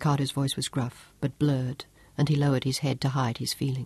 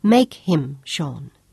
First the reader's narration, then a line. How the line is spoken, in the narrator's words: Claudia insisted